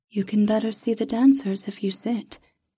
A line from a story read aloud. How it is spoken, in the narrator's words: the spirit said